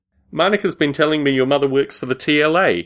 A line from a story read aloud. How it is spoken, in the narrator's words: Hughes laughed